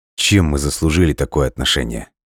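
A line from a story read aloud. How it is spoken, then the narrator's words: Cold, lowered voice. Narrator (Russian): холодно спросил Лесков, понизив голос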